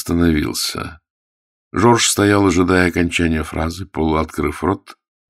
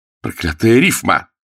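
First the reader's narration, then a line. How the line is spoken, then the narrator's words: Exclaimed. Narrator (Russian): воскликнул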